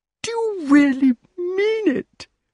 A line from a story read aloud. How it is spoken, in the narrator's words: cried the king